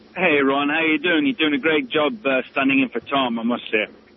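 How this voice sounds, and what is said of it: English accent. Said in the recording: “you don't have a very Louisiana accent ... I'm actually from England”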